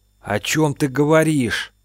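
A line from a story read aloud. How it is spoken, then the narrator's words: Shocked hoarse rasp. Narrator (Russian): прохрипел потрясенный Артем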